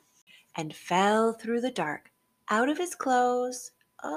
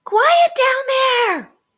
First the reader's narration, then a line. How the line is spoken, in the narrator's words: shouted